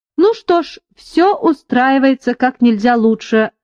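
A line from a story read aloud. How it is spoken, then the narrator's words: Joyful. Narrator (Russian): радостно подхватил Беррил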